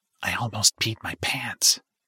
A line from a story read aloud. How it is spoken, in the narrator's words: whispered